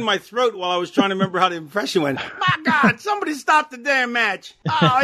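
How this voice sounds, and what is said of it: Usual voice. Nothing is said of it.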